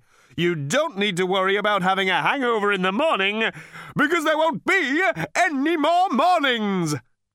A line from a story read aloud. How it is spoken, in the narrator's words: he cried cheerily